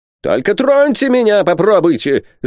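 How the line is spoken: Yelling. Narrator (Russian): завопил Пальмирен Розет

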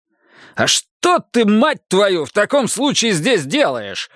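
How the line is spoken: Roar. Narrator (Russian): взревел Рокки

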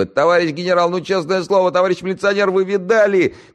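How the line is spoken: Policeman shouting. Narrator (Russian): кричал и знакомый Егору постовой

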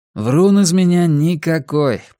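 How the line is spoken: Grumble. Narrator (Russian): проворчал Рекс

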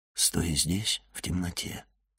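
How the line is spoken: Quiet. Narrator (Russian): тихо сказал он ему

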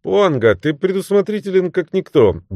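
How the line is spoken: Cheerful tone. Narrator (Russian): бодрым тоном проговорил он

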